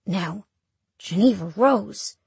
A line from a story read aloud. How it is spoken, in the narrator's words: he says softly